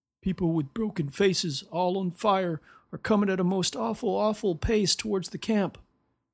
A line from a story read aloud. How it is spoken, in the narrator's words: would moan